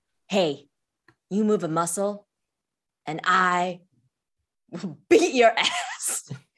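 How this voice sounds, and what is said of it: Impression of a police officer. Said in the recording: “this is my best blue coat impression.”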